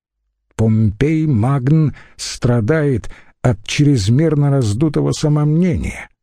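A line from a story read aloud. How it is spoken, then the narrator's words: Plain. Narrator (Russian): сказал Целий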